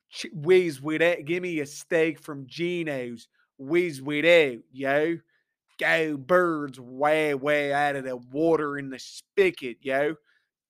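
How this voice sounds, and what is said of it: Mediocre put-on Philadelphia accent. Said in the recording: “my Philly accent. It's not great ... That wasn't bad.”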